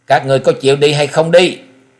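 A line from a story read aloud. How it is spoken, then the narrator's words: Old man's tiger-like roar. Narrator (Vietnamese): Lão nhân vừa bị đẩy lùi lúc này chợt gầm lên một tiếng như mãnh hổ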